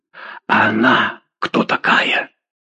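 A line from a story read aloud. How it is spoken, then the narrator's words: Excited whisper. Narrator (Russian): возбужденным шепотом спросил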